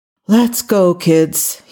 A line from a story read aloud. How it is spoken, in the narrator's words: he groaned